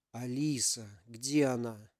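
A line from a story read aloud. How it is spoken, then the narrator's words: Whisper through pain. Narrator (Russian): Сквозь боль прошептал Ярик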